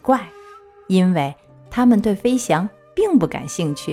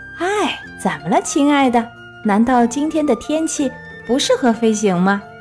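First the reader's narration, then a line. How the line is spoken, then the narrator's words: Mocking. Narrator (Chinese): 企鹅们常常嘲笑达芬奇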